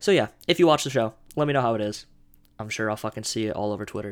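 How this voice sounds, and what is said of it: Usual voice. Nothing is said of it.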